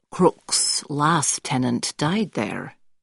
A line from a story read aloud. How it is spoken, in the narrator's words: Guppy quietly adds